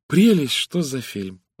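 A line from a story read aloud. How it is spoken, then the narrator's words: Girl sighing. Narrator (Russian): вздохнула девушка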